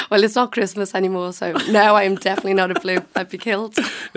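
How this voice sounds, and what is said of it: Liverpool accent. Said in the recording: “where is that accent from? ... Liverpool.”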